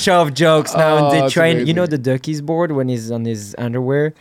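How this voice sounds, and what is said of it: Speaks with a noticeable accent. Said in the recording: “they made fun of me because of my accent all the time”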